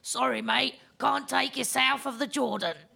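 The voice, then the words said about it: Put-on Cockney accent. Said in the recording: “my terrible English accent ... That was a good Cockney accent.”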